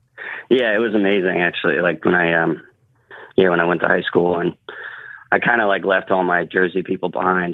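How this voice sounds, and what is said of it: South Jersey accent. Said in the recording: “you got the South Jersey accent”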